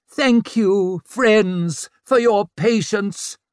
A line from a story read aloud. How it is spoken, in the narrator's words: bellowed Orso